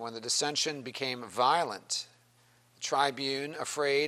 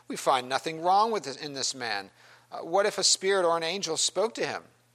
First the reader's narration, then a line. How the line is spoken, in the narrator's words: a great clamor arose, and some of the scribes and of the Pharisees' party contended sharply